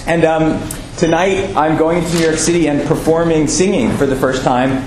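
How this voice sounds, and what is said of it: Hoarse voice going in and out. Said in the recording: “I think I may have left my voice there... if it kind of goes in and out... A little choked up, but it's just physical... I have no voice”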